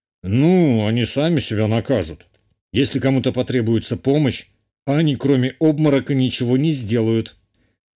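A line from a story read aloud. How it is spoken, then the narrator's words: Wry grunt. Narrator (Russian): хмыкнул герцог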